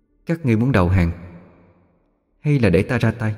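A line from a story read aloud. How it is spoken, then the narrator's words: Soft gentle voice. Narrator (Vietnamese): Giọng nói nhỏ nhẹ, không uy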